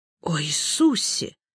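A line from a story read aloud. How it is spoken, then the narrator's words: Groaning priest. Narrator (Russian): простонал священник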